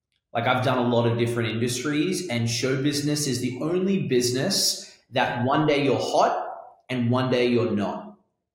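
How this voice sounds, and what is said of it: Australian accent with London tinge. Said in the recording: “Let's clear up the accent. ... I've got the Australian going on for me, Australian London going on for me.”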